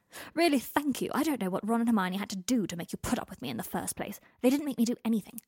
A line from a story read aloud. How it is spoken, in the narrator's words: Harry snapped